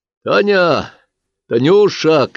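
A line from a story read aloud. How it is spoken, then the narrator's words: Soldier shouting. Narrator (Russian): крикнул боец соседней койки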